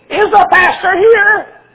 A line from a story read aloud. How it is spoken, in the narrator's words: Had a squeaky voice like that